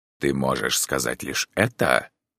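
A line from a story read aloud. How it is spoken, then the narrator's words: Rude question. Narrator (Russian): грубо спросил доктор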